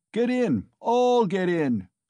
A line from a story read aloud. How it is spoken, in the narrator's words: cried Mikolka